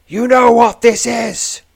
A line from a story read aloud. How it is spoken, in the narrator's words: thunders the voice